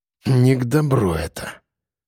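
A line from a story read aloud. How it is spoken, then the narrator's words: Mutter. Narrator (Russian): пробормотал он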